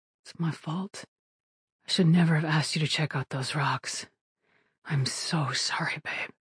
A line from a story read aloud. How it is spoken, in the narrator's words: His voice muffled by her hair, Alan said